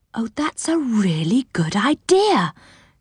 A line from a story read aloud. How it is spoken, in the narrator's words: said Silky happily